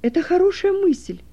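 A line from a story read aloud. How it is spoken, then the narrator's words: Exclaimed. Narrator (Russian): воскликнул Стефан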